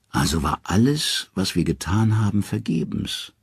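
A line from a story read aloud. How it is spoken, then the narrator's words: Tired. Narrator (German): sagt Odin müde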